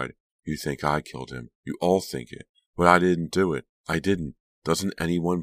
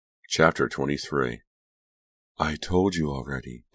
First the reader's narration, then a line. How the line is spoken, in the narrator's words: Delia sighed